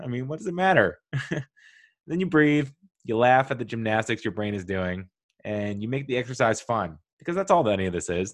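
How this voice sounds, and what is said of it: Smiling voice. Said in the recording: “I'm smiling through this. My voice is like through a smile”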